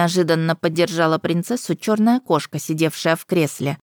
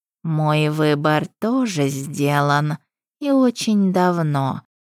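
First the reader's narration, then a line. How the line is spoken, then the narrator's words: Purring. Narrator (Russian): промурлыкала Пашт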